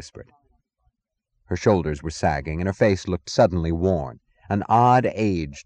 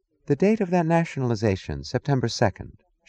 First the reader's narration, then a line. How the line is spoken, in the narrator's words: asked, her voice wistful